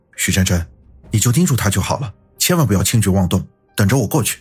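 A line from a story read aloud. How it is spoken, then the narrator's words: Determined, gritted teeth. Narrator (Chinese): 云峰一咬牙说道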